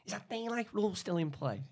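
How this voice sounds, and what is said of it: Scouse accent imitating Carragher. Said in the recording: “Your Scouse accent was amazing, by the way.”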